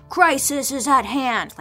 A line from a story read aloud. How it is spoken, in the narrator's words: like all caps yelling